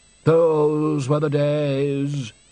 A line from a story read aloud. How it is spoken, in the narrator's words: said Undershaft sadly